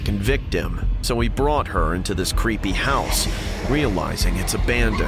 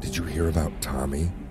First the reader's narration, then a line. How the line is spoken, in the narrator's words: she'd ask in her soft, frail voice